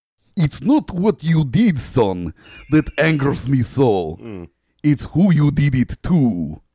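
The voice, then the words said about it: Bad put-on Russian accent. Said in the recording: “be prepared for my terrible Russian accent.”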